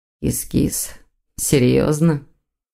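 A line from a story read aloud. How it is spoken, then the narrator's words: Gloomy drawl, demon. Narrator (Russian): Мрачно протянул демон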